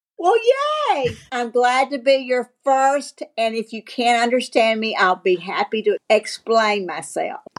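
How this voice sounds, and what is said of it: Southern American accent. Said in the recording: “your accent ... You might be my first Southern accent on the show.”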